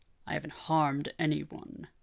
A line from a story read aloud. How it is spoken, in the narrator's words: growled